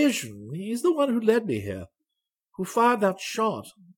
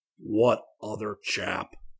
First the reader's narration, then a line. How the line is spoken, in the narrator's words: asked